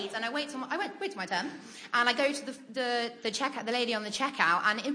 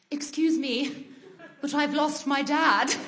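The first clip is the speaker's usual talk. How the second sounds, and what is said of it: Very posh British accent. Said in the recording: “probably in poshest British accent, more posh than I've ever used in my life”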